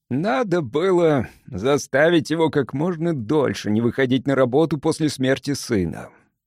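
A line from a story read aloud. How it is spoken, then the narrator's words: Rueful sigh. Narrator (Russian): сокрушенно вздохнул Лэндж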